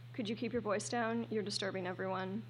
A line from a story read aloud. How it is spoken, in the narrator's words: A professorial-looking man across the aisle makes a shh sound and says quietly